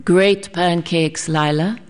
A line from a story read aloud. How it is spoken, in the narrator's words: he said